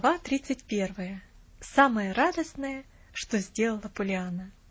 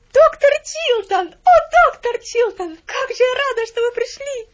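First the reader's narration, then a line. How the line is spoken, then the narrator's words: Delighted exclamation. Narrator (Russian): воскликнула Поллианна, и в голосе ее звучал такой восторг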